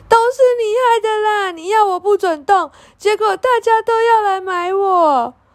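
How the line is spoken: Sad crying. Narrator (Chinese): 雅雅一看见爸爸，伤心的哭了起来

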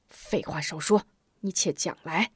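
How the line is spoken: Harsh, stern. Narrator (Chinese): 头陀厉声道

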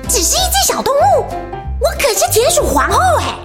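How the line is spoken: Angry shout. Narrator (Chinese): 小田鼠生气的大喊

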